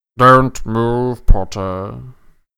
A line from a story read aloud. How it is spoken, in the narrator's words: said Snape lazily, clearly enjoying the sight of Harry standing motionless, eye to eye with the angry snake